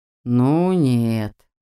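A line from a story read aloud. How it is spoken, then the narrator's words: Drawn out. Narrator (Russian): протянул Магнус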